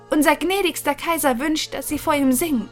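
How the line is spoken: Loud calling, small cook. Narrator (German): rief die kleine Köchin laut

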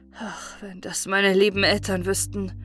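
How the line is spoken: Sad sigh. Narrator (German): seufzte er traurig

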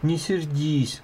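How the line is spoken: Pleading. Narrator (Russian): взмолился он

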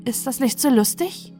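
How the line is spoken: Anxious question. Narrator (German): fragte die Witwe ängstlich

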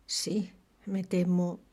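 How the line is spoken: Muttering to oneself. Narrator (Spanish): murmuró como para sí

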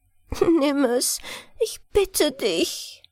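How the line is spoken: Sobbing little angel. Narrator (German): schluchzte das Englein

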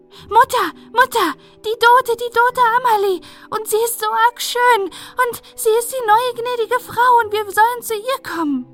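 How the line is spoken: Breathless child's shout. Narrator (German): schrie ganz atemlos

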